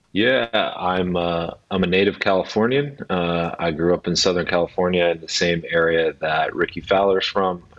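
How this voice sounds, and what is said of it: American accent. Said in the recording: “you certainly don't have an Edinburgh accent. You've got an American accent.”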